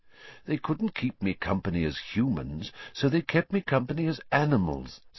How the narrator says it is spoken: said Lupin

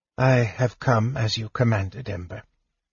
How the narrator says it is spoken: the figure said softly

